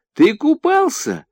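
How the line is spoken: Cheerful child asking. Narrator (Russian): опять спросил малыш, весело глядя на гостя

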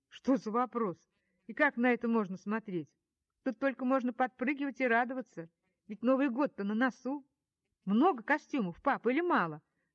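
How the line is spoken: Trembling question. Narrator (Russian): спрашиваю дрожащим голосом

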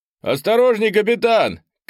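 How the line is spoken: Shouting. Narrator (Russian): крикнул

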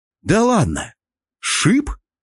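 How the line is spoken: Surprised exclamation. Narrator (Russian): Удивленно воскликнул я

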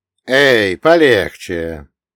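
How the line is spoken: Calm, slight Sicilian accent. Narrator (Russian): говорил спокойно, с легким сицилийским акцентом

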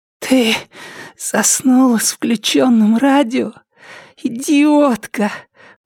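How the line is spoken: Rasped. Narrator (Russian): прохрипела Триша

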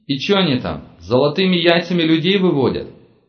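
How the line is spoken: Snorting scoff. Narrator (Russian): хмыкнул Серега

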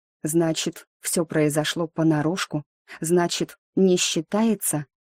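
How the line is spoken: Whisper. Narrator (Russian): я спросила шепотом

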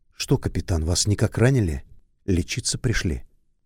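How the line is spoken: Angry, unkind question. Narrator (Russian): сердито, совсем не ласково, и спросила

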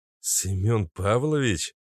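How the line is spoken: Uncertain question. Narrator (Russian): Неуверенно спросил Максим

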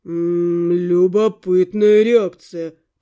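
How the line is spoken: Drawling. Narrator (Russian): протянул он

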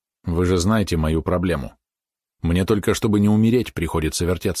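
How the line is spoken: Sighing. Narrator (Russian): вздохнул

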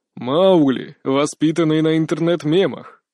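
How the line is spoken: Laughing. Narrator (Russian): Мак засмеялся

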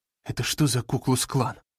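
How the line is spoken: Breathless exhale. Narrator (Russian): выдохнула Агата

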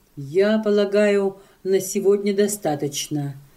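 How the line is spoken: Calm pastor's speech. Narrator (Russian): спокойно сказал пастор

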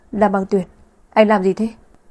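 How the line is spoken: Angry speech. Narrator (Vietnamese): Vân Sở đỏ mặt tức giận nói

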